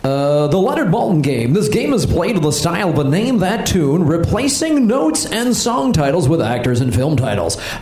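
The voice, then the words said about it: Game show host voice. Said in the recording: “in your game show voice”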